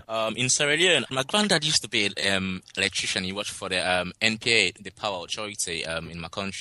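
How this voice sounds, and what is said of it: Sierra Leonean accent. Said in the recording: “where are you from originally? ... I'm from Sierra Leone, West Africa. ... It's a lovely accent”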